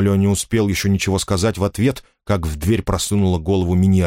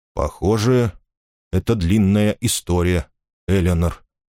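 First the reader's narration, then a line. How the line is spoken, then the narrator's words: Gentle remark. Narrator (Russian): мягко заметил тот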